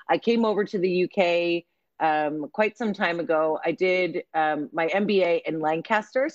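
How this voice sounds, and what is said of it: American accent. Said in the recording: “As you can hear in my voice, I'm American.”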